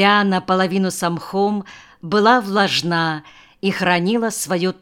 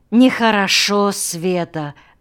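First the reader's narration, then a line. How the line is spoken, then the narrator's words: Sighing. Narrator (Russian): вздохнул Карабас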